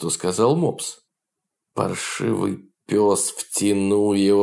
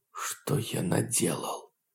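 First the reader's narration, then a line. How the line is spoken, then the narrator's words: Whisper. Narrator (Russian): прошептал Лидин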